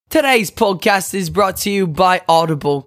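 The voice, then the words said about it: Terrible put-on accent. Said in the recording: “that terrible, terrible accent”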